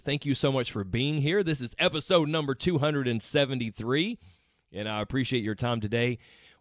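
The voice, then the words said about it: Rough, congested voice from cold. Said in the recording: “That sounded kind of rough ... I'm battling some sort of little cold ... you sound really kind of rough ... I've got some sinus stuff going on, and my voice sounds a little odd”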